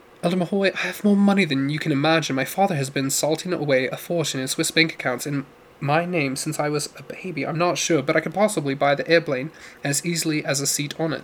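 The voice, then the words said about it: Put-on English accent. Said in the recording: “Oh, English accent.”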